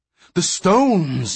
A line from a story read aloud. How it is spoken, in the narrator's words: yelled Menyon